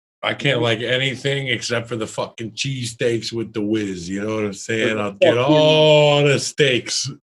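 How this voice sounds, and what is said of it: Put-on Chicago / New York accent. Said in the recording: “What is that, a fucking Chicago accent? ... And New York.”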